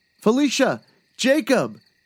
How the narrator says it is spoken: He called out

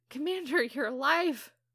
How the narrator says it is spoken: Anna exclaims

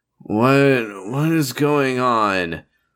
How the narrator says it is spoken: Shalia grumbled

